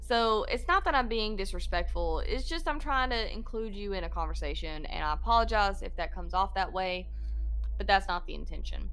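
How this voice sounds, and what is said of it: Georgia Southern country accent. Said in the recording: “I am from Georgia. This accent that you hear is not fake. It may be thicker in some times than other times ... This is my real accent. ... a country accent ... a Georgia accent is like, I'm from the sticks”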